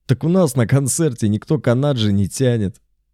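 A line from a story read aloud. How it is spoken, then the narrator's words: Laughing. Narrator (Russian): засмеялся Бельфигор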